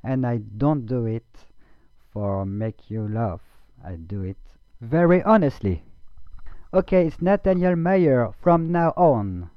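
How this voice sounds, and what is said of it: Strong non-native English accent. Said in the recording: “I've got a pitiful accent”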